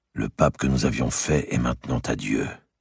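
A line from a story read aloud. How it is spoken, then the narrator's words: Murmuring. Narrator (French): murmura-t-il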